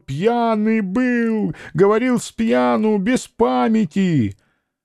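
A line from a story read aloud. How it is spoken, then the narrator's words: Wailing spluttering scream. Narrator (Russian): Шекловитый вопленно закричал, брызгая слюной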